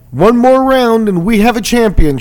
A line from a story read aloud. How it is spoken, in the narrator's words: shouted Spirito throughout the final round